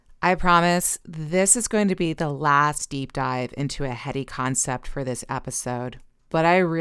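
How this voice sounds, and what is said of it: Usual voice. Nothing is said of it.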